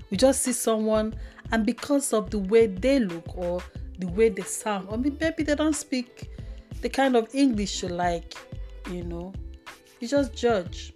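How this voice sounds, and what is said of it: Igbo Nigerian English accent. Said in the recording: “my Igbo accent”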